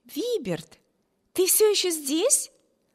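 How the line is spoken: Exclamation. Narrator (Russian): воскликнула сестра

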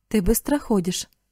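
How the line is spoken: Plain, man. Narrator (Russian): сказал мужчина

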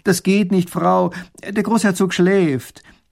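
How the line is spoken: Calls out to her. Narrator (German): Erich ruft ihr zu

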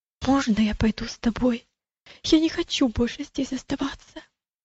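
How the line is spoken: Frightened boy, near whisper. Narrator (Russian): мальчик выглядел тоже очень испуганным и сказал почти шепотом

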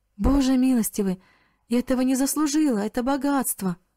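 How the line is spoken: Astonished, frightened exclamation. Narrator (Russian): Мариана от удивления и испуга воскликнула

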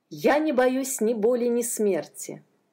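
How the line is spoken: Plain. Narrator (Russian): сказал Джадсон

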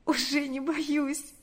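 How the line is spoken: Sobbing, smiling reply. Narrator (Russian): ответила она, всхлипнув и улыбнувшись

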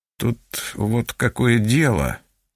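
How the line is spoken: Mumbling. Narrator (Russian): начал мямлить он

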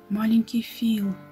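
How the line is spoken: Tender whisper. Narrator (Russian): прошептал Том

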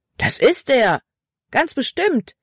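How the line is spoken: Boy calling out. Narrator (German): rief ein anderer Junge

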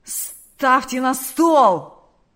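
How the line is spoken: Growl. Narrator (Russian): прорычал Карп

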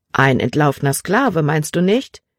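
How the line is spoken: Plain question. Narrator (German): fragte der Doktor

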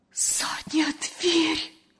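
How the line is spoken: Terrified whisper. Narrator (Russian): С ужасом прошептала Лена

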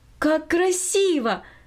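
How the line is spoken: Exclamation. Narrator (Russian): воскликнула Минори

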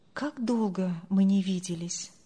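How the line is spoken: Inward sigh. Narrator (Russian): вздохнул про себя Андрей

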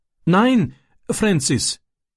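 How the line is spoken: Pleading. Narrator (German): flehte er

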